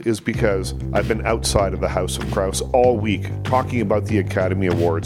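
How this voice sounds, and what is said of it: Voice affected by a slight cold. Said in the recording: “with just like a little bit of a cold. You can probably hear it in my voice.”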